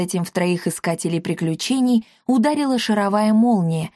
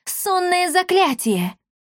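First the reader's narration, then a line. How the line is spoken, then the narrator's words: Shouted. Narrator (Russian): выкрикнула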